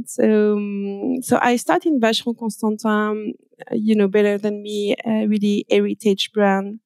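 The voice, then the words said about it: French accent. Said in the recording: “I'm French. I guess you can hear with my accent.”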